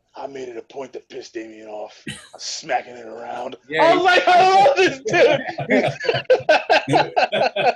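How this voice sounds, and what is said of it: Imitates another person's voice. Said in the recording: “That's a good impression.”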